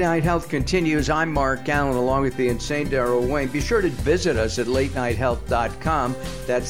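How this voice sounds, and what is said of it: Usual voice. Nothing is said of it.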